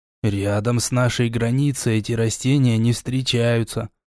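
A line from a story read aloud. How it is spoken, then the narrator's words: Embarrassed mutter. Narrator (Russian): буркнул смутившийся эльф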